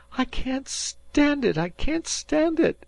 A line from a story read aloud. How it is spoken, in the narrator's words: cried Dan